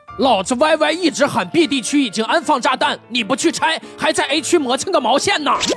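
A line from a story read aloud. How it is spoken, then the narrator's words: Shouting. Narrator (Chinese): 我哥直接冲我侄子喊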